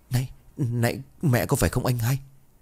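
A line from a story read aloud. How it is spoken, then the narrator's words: Trembling. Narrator (Vietnamese): Khải Huy run rẩy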